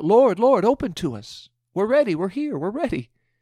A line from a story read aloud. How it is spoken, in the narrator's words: They called out